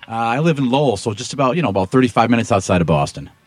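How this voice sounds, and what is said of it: Boston area accent. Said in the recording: “you can probably tell from a little bit of the accent that I'm another native son of the Boston area”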